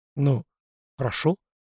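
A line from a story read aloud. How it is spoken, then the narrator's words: Bewildered agreement. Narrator (Russian): растерянно согласился Шуйский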